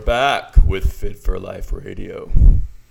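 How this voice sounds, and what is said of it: Radio announcer voice. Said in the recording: “Is that your radio voice, man? ... It was authentic.”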